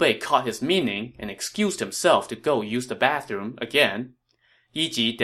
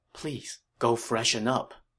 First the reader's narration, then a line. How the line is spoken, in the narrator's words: Yi Ji said in a low voice